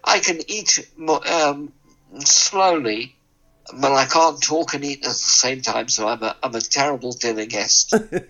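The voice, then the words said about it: Somewhat weird, impaired voice. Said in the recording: “you can hear my voice is a bit weird”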